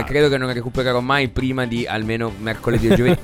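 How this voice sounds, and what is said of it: Voiceless, worn-out voice. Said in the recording (Italian): “Sono senza voce, distrutto.”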